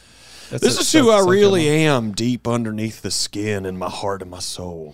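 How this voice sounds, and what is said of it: Put-on Southern accent. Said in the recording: “I'll do this voice. ... Yeah, that's southern.”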